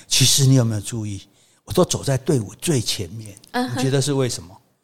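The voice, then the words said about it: Quiet whispered voice. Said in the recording (Chinese): “小声说”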